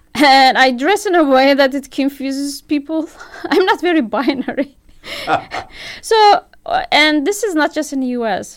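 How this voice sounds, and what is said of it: Foreign accent that's hard to place. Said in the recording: “I have this accent that people cannot place.”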